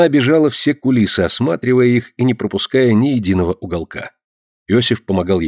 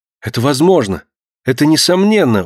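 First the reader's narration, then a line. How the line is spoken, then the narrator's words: Exclamation. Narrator (Russian): воскликнула Консуэла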